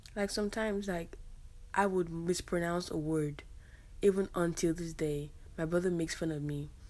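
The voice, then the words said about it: African-accented English. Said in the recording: “Oh, you have an accent. ... Yes, I do have an accent ... Oh my gosh, you're African.”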